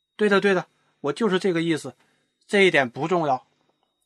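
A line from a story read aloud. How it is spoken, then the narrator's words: Hurried. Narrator (Chinese): 国王急忙说道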